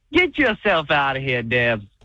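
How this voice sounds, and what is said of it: Southern cartoon rooster accent. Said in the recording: “Almost sounded like he was going to talk in an accent there... I thought it was like Foghorn Leghorn... the Southern gentleman chicken”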